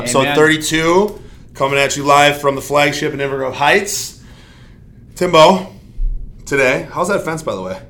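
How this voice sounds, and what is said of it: Hoarse voice. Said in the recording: “I sound a little hoarse.”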